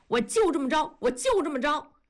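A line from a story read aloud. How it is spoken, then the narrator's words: Calling out from bed. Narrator (Chinese): 在被窝里叫着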